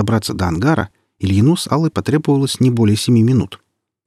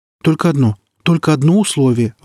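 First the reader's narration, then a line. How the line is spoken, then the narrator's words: Pleading. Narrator (Russian): взмолилась колония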